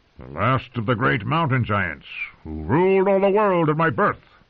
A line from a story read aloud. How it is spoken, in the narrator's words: he bellowed back through the snow